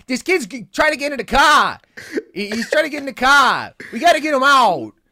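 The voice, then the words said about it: Bad Boston accent, Tom Hanks impression. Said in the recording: “He does the worst Boston accent that I have ever heard.”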